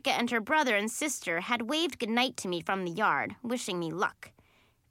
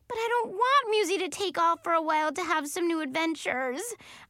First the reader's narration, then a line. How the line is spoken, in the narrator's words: I said with a wail